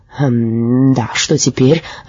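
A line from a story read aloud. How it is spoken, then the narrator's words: Gruff mutter. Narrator (Russian): буркнул унтер-офицер Дипфельмозер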